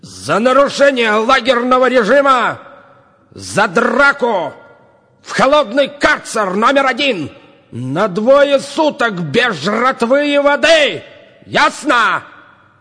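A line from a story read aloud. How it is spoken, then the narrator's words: Boss shouting. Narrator (Russian): крикнул начальник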